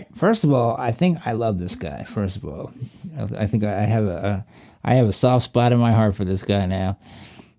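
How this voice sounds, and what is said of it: Southwestern Virginia accent. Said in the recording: “my southwestern Virginia accent, which is not far away from where this guy is, just came out on me”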